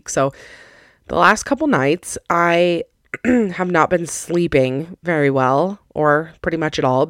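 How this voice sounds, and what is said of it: Slightly raspy, hoarse voice. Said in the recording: “losing my voice a little bit, like not all the way, but you can probably tell I'm a little bit raspier than normal ... I sound a little bit raspy”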